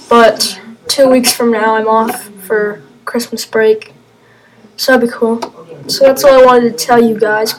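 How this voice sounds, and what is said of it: Voice going out, strained. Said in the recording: “My voice is kind of going out right now”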